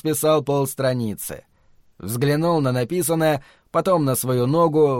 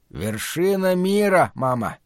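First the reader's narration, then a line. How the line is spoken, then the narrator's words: Hoarse rasp. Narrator (Russian): Гарольд прохрипел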